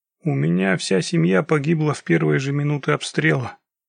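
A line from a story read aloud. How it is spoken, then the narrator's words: Flat monotone voice. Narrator (Russian): рассказывал Ушанги Бакурадзе каким-то бесцветным монотонным голосом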